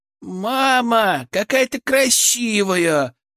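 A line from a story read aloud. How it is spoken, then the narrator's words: Admiring shout. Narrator (Russian): восхищенно закричала Лена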